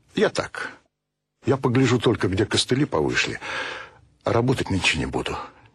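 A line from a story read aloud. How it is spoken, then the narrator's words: Quiet, father. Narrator (Russian): тихо сказал отец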